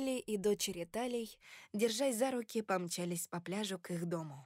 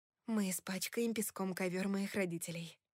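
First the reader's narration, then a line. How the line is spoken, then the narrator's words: Breathless between kisses. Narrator (Russian): выдохнула я между поцелуями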